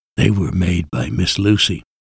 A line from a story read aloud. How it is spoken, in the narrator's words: whispered